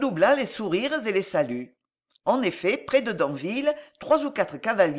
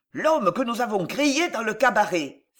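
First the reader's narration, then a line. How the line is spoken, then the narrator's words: Exclaimed. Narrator (French): s'écria l'un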